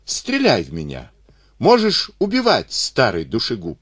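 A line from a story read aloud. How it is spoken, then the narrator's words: Joyful shout. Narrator (Russian): И Исаул крикнул радостно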